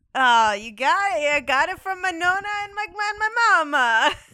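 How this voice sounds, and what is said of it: Put-on Italian accent. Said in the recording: “your accent is so authentic”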